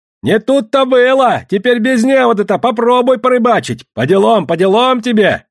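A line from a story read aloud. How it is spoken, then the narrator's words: Shouting. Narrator (Russian): кричал Федор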